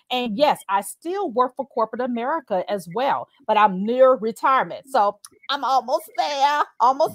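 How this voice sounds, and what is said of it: Slight Southern US twang. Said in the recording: “I hear a little southern twang”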